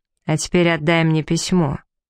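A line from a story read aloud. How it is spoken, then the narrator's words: Sharp and rude. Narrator (Russian): резко и грубо бросил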